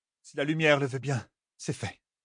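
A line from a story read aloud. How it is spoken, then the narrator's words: Sighing. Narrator (French): soupira Kairé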